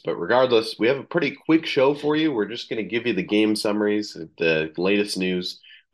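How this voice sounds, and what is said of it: Voice lower-pitched than usual. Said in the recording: “my voice sounds a little bit different ... your voice is a little bit lower ... it sounds like I'm suddenly, you know, a couple registers down in my voice”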